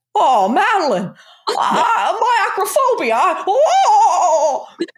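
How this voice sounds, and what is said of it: Imitates another person's voice. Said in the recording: “picture Jimmy Stewart... I don't know what accent this is.”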